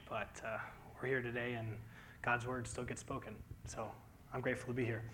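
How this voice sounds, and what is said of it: Strained, troubled voice. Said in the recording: “You'll have to bear with me today. My voice has been troubling me the last week”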